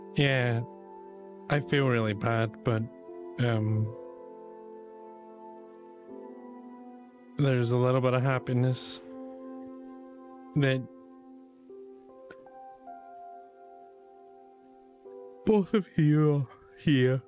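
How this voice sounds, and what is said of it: Choked-up, emotional voice. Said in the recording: “sort of gets a bit choked up”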